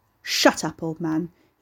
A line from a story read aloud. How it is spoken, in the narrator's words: he snarled